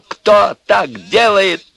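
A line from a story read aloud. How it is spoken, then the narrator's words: Shouted. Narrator (Russian): закричал он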